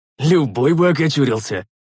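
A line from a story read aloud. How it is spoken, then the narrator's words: Snorting, effortful. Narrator (Russian): хмыкнул я, тяжело поднимаясь на ноги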